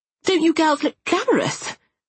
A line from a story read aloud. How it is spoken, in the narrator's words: cried Lily's mother upon seeing us